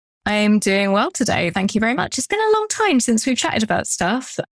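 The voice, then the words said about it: English accent. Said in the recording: “English accent”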